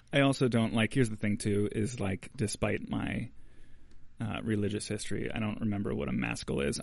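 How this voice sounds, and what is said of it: Scratchy voice. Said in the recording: “My voice is so scratchy”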